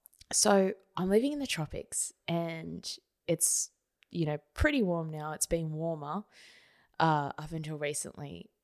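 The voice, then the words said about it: Slightly scratchy voice. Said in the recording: “my voice sounds a little bit scratchy ... My throat doesn't do well with aircon”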